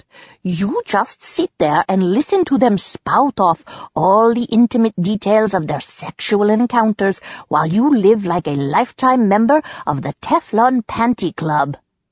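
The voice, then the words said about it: Imitation Dr. Ruth accent. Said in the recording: “Selina said with an imitation Dr. Ruth accent ... Dropping her accent”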